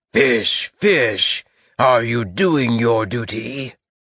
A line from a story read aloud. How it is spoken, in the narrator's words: He was enormously tall saying in a terrible voice